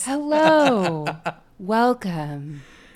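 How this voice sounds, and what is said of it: Exaggerated customer-service voice. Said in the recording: “your version of like your customer service voice”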